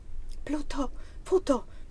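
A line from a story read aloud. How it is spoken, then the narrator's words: Woman's low murmur. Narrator (Italian): mormorò la donna, ancora voce bassa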